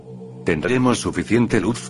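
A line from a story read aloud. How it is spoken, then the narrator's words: Plain. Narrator (Spanish): dijo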